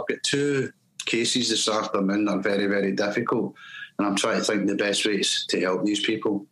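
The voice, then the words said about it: Glaswegian Scottish accent. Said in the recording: “I don't do accents, so you're going to get Glasgow all the way through this.”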